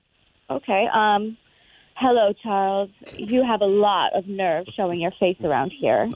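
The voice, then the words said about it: Attempted sultry, seductive delivery. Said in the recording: “sultry, sexy, more romantic, like really sell it ... super sexy voice”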